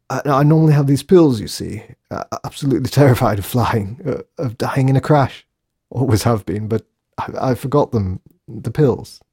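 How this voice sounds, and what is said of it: Put-on British accent. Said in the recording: “he said in his very best British accent.”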